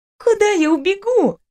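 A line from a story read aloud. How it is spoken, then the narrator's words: Giggling question. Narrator (Russian): спросила я, не переставая по-дурацки хихикать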